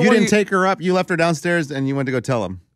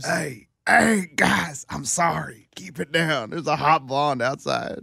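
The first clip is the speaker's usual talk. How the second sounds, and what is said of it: Hoarse, clumsy attempted whisper. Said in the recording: “can you imagine him trying to whisper? ... And his voice is all hoarse.”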